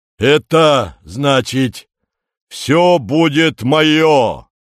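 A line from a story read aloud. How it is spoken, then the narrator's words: Rumbling announcement. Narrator (Russian): ракочущим голосом объявляет он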